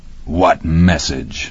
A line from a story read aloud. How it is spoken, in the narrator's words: Scully growled